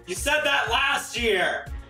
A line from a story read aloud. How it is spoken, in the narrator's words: the audience started to yell back